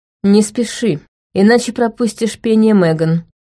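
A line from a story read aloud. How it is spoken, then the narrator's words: Calmer tone. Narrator (Russian): добавил Шин уже более спокойным тоном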